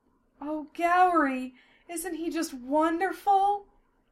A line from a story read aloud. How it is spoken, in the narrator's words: Sylphiel sighed dreamily